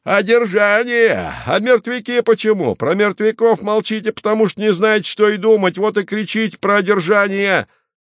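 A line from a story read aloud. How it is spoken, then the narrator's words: Shouting. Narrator (Russian): Хвост кричал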